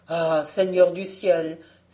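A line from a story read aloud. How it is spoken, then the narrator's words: Woodcutter exclaiming. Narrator (French): s'écria le bûcheron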